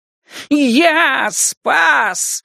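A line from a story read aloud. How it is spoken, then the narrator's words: Howling wolf. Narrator (Russian): взвыл волк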